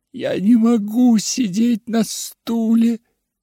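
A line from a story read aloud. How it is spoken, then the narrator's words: Sobbing boy. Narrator (Russian): всхлипывал мальчик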